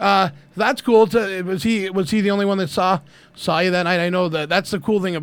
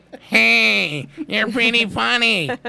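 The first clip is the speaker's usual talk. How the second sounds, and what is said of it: Imitates another person's voice. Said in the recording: “that's my Louis impression. ... that's a good one.”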